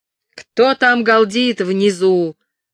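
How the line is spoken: Guard shouting. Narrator (Russian): выкрикнул стражник

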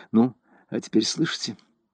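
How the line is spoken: Quiet speech. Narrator (Russian): сказала негромко

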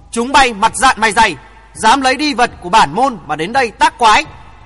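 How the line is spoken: Composed loud shout. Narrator (Vietnamese): Vĩ Nhất Dân trấn tĩnh ngay và hét to

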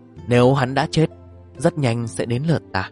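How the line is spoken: Sighing. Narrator (Vietnamese): thở dài một tiếng

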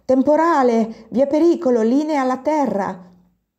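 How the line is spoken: Foreman shouting. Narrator (Italian): Il capoturno gridò

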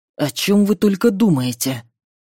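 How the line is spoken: Rusty creaking voice. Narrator (Russian): проскрипел Кроу своим ржавым голосом

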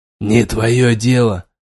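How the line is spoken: Grumbled. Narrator (Russian): буркнул

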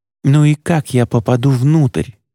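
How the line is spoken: Hissed. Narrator (Russian): прошипел он

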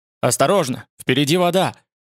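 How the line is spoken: Hurried shout. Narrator (Russian): Кусим крикнул торопливо

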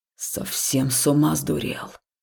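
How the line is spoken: Grumbling. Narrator (Russian): проворчал Векс

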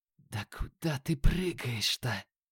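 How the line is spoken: Whisper. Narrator (Russian): прошептал Юки

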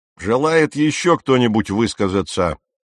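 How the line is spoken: Captain's loud question. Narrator (Russian): громко спросил капитан

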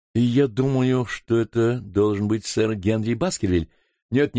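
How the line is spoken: Plain. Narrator (Russian): сказал я

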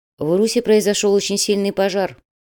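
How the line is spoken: Even voice. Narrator (Russian): ровным голосом сообщил Мишенька

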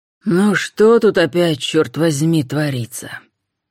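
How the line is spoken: Menacing man. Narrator (Russian): грозно произнес человек

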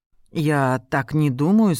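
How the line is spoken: Tense voice. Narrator (Russian): сказал напряженным голосом

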